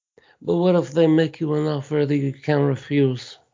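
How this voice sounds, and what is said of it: Don Corleone impression. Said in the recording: “that was a frightening good impression... That was a good Don Corleone impression.”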